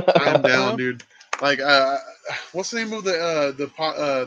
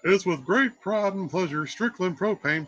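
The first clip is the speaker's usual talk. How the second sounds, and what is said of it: Imitates Hank Hill cartoon voice. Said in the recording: “I can do the Hank Hill voice.”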